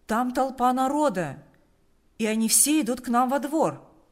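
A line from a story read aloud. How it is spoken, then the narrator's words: Shout. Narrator (Russian): крикнул он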